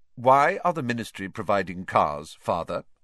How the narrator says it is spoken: Percy asked again in a dignified voice

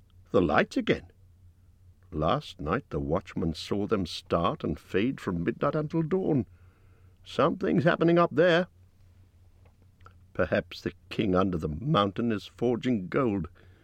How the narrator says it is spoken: said another

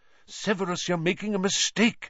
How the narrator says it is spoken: said Lupin urgently

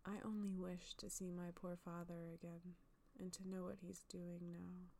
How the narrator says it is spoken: she sighed

